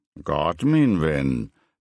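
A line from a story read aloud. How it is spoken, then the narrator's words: Grumbling. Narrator (Danish): brummede Ludwig Hirtreiter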